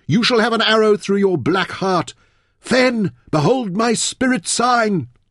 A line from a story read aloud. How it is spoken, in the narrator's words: Taita called urgently